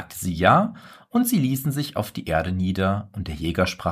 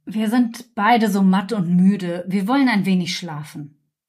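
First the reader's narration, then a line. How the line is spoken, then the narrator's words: Tired, weary voice. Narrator (German): weil er von dem Feuer und dem Kampf so matt und müde war, sprach er zur Jungfrau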